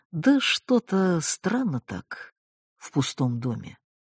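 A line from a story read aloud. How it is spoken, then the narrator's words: Dull, muffled. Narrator (Russian): глухо отозвалась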